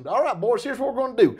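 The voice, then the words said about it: Put-on Southern US accent. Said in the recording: “Southern accents”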